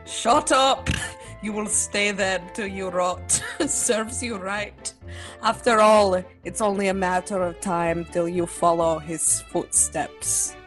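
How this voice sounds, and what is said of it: Cockney accent, cruel laughing tone. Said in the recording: “A voice replies in a Cockney accent, laughing cruelly.”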